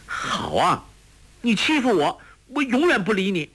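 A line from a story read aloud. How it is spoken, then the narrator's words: Shouted. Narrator (Chinese): 黄蓉叫道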